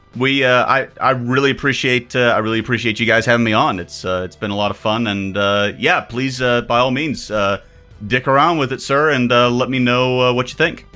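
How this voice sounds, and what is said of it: Southern American accent. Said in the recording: “It sounds so much dirtier in your accent ... I'm an American ... I'm from the South too”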